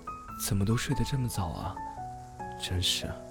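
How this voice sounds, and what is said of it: Quiet muttering whisper. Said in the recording (Chinese): “小声的嘀咕着”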